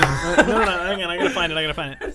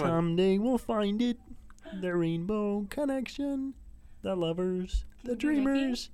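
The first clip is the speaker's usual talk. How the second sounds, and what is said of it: Kermit the Frog voice impression. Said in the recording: “a really good Kermit impression”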